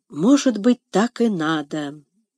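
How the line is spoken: Thoughtful whisper. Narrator (Russian): прошептала она, словно размышляя вслух

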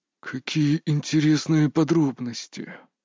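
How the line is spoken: Through gritted teeth. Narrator (Russian): процедил Леонид Андреевич

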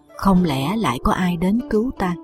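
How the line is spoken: Frowning mutter. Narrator (Vietnamese): Chàng cau mày lẩm bẩm

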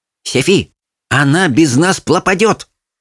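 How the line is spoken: Serious lisping. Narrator (Russian): серьезно прошепелявил Светик

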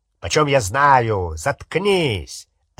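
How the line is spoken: Rough bark. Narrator (Russian): рявкнул грубый голос

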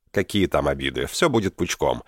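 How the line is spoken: Confident. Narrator (Russian): уверенным тоном произнес Дэнни

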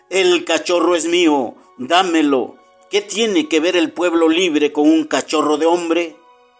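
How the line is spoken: Muffled roaring exclamation. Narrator (Spanish): surgió un rugido sofocado, la voz de Shere Khan exclamando

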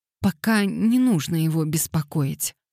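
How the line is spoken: Timid. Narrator (Russian): робко добавила Лилиан

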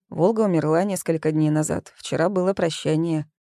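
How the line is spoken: Dry reply. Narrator (Russian): сухо ответил

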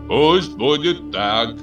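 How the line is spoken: Loud. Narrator (Russian): громко сказал он

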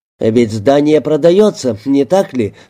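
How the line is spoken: Plain. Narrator (Russian): сказал Перегрин

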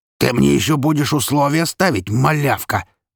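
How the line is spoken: Father roaring. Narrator (Russian): взревел отец

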